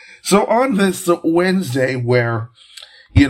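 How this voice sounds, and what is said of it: Usual voice. Nothing is said of it.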